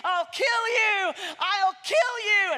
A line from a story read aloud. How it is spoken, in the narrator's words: the giant was furious, screaming